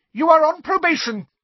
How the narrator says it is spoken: shrieked Professor Umbridge

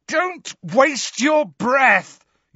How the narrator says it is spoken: yelled Harry, his eyes screwed up against the pain in his scar

